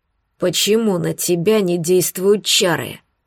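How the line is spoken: Angry breathy exhale. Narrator (Russian): выдохнул он зло

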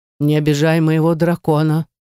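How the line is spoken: Weak but menacing. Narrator (Russian): слабо, но грозно сказал эльф

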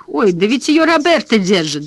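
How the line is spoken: Laughing. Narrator (Russian): засмеялся Данкин

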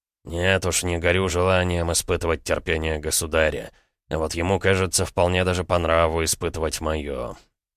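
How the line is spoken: Grumbled. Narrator (Russian): пробурчал Долгорукий

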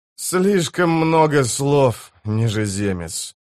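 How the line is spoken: Sighing. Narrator (Russian): вздохнул Тиблор

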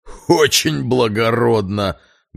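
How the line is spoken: Guttural laughter. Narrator (Russian): гортанно захохотал Перегрин

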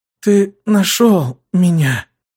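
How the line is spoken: Weak, strained, smiling. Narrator (Russian): слабо улыбнулась, выдавив

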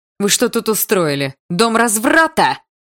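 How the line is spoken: Yelling. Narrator (Russian): заорала она

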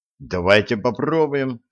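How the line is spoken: Plain. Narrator (Russian): сказал Широков

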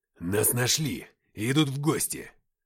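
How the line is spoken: Growl. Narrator (Russian): прорычал Уфимцев

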